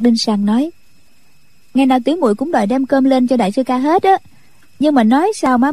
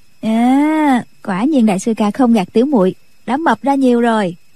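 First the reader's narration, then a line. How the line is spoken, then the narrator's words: Smiling. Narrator (Vietnamese): Nhạc Linh Sang mỉm cười nói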